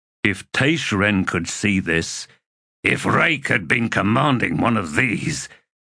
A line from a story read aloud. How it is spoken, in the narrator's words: Stormy grunted